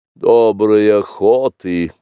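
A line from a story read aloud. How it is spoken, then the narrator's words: Grumbling. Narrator (Russian): проворчал, наконец, Ка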